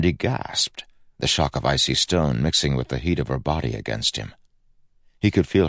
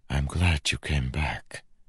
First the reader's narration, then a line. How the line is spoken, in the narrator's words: he whispered